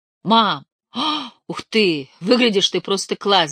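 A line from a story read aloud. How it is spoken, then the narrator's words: Shouting. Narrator (Russian): закричал Крис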